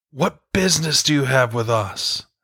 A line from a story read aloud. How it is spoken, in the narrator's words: sounded like the roar of a lion